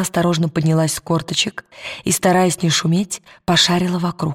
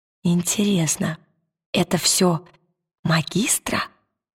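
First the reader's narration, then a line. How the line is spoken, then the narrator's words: Whispered. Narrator (Russian): прошептала она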